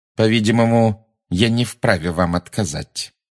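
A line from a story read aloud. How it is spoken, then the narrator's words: Through clenched teeth. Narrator (Russian): процедила МакГонагалл сквозь крепко сжатые зубы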